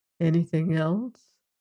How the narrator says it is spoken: Fred asked softly

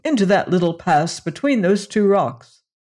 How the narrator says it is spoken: cried Karsten

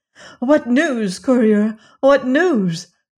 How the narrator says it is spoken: cried the queen

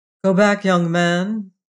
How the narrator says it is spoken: he said

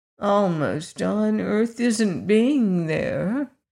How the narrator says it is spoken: said the kitten in a discontented tone

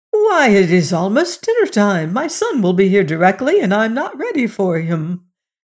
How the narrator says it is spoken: the mother of Old Pipes awoke, she exclaimed

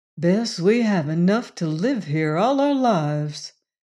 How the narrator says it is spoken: he said dreamily

